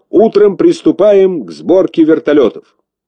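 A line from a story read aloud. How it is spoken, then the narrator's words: Loud commanding. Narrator (Russian): громко отдал распоряжение, как главный техник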